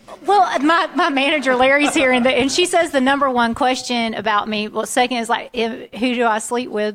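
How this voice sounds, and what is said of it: Genuine Southern US accent. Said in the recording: “this is a real voice from the South. You know, really, you know, unique voice ... not the fake Southern accent”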